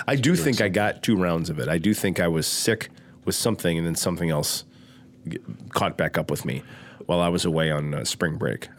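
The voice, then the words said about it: Nasal, congested voice. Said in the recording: “Do I sound nasally? ... Yeah, you do. ... I feel nasally.”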